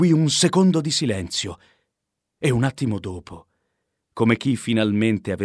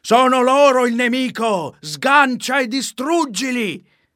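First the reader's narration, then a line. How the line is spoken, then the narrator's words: Furious shouting in unison. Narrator (Italian): il re e il generale, sempre più spazientiti, gridarono furiosi insieme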